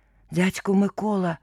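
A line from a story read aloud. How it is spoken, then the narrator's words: Hoarse whisper, coughing boy. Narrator (Russian): хрипло прошептал хлопец и закашлялся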